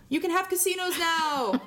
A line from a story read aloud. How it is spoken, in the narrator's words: Buffy yells